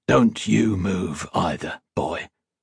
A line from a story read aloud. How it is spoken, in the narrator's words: Fur said, glaring menacingly over at Oppie